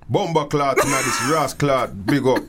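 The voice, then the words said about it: Put-on Jamaican Yardman accent. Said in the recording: “I'm working on my Yardman accent, so don't judge me”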